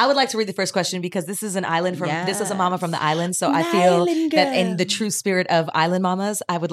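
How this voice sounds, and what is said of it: Usual voice. Nothing is said of it.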